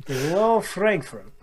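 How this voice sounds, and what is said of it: Put-on Russian accent. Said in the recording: “That's a Russian accent, not German.”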